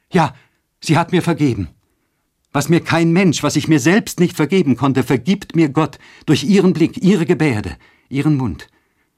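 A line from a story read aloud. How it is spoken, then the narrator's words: Exclaiming with holy joy. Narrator (German): sprang sie wie begeistert auf und rief mit heiliger Freude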